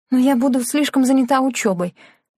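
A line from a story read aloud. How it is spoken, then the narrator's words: Sharp, choked up. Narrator (Russian): резко ответила она, пытаясь проглотить комок в горле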